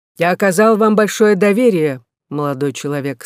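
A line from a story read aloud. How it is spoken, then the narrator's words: Plain. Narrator (Russian): сказал он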